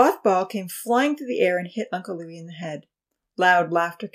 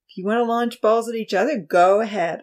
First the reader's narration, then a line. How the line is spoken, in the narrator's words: Uncle Louis replied wearily